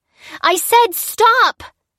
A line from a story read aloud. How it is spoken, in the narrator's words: screamed, all timidity vanishing